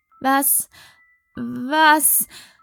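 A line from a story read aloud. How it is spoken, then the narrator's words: Stammering. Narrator (German): stotterte Sarah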